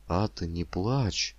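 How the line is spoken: Timid whisper. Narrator (Russian): прошептал несмело

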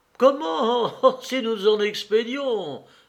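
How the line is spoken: Exclaimed. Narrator (French): s'écria Katavasov

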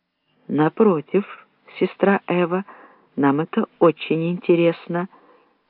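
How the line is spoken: Soft, cultured tone. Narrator (Russian): проговорил Медард мягким тоном интеллигента

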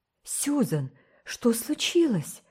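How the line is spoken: Alarmed exclamation. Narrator (Russian): в тревоге воскликнула миссис Блайт

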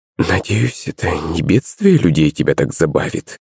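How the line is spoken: Whisper. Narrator (Russian): прошептала она

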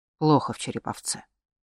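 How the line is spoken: Quiet, over the shoulder. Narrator (Russian): негромко бросил через плечо

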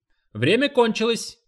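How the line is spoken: Shout. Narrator (Russian): крикнул тренер

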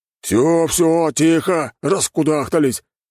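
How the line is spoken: Bandit barking. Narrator (Russian): рявкнул бандит

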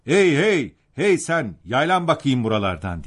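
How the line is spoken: Shouting. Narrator (Turkish): diye bağırdı

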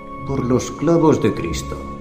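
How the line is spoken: Murmuring. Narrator (Spanish): murmuraba

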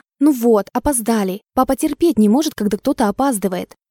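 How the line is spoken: Hissing. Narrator (Russian): зашипела на меня Лиля

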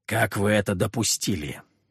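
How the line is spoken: Through gritted teeth. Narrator (Russian): сквозь зубы спросил

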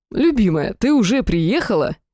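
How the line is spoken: Joyful exclamation. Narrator (Russian): радостно воскликнул Сахарель

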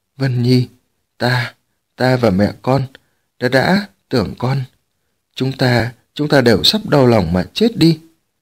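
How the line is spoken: Stammering, emotional father. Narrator (Vietnamese): Tống Chi Huyện lắp bắp nói

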